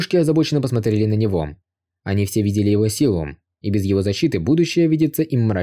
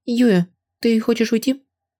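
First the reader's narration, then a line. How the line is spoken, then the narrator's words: Worried question. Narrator (Russian): неожиданно обеспокоенным голосом спросила их Чэнь Яо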